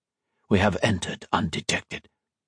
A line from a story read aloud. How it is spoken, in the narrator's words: Serdar whispered